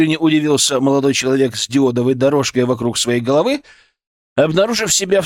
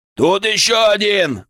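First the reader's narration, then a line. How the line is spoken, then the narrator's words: Shouted. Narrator (Russian): выкрикнул киборг с перфоратором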